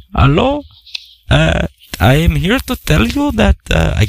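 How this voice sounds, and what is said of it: Weak put-on Indian accent. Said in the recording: “I was going to do an Indian voice ... could do a better Indian voice”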